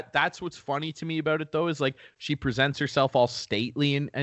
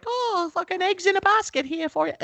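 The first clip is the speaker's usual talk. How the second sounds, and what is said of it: Imitates another person's voice. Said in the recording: “my bad, like, impersonation of like how I assume the Queen talks ... She talks a lot more proper than that.”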